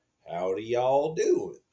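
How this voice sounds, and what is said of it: Put-on American Southern accent. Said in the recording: “southern accent. Our southern accent in the state is very different, right? ... Southerners are more,”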